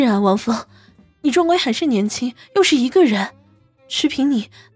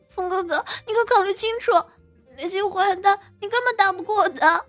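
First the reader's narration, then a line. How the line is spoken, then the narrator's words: Anxious, tearful. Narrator (Chinese): 陈柔柔急哭了，出声道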